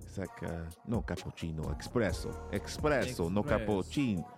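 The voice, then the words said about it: Bad put-on Italian accent. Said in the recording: “that was a really terrible Italian accent”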